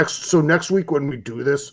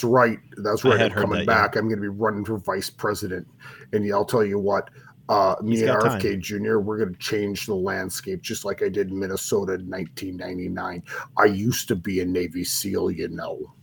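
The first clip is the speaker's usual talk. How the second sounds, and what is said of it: Jesse Ventura impression. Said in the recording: “that's one of my better impersonations ... That was very good, Jesse actually”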